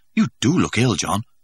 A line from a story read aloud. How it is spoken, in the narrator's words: Helmholtz exclaimed solicitously